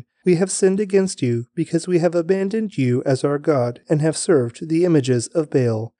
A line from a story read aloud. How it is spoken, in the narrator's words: they cried out to the Lord for help, saying